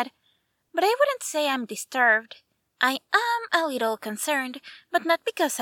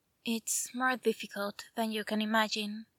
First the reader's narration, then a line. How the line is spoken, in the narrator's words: he whispered